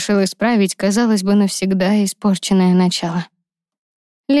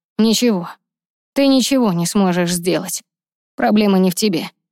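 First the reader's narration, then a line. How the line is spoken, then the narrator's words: Sighing. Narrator (Russian): вздохнул Ронан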